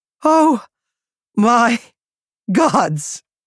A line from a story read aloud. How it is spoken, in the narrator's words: she wheezed